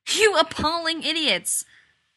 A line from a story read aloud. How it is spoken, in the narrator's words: McKay had been yelling